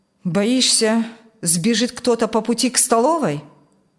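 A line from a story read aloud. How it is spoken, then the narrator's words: Gloomy mutter. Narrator (Russian): Мрачно буркнул тот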